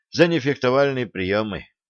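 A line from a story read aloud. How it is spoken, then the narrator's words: Dejected sigh. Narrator (Russian): удрученно вздохнул юноша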